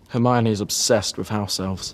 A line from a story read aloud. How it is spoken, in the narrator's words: Ron muttered to Sirius